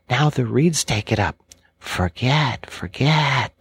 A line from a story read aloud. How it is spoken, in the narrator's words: they sigh, and it dies away in a rustle and a whisper